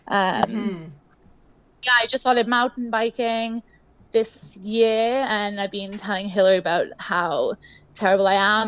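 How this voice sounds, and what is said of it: British accent. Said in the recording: “I'm British ... my accent is actually, it sounds like an accent”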